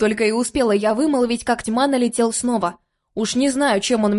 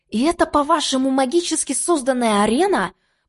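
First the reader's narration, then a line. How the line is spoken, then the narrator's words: Hissed. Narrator (Russian): Прошипела я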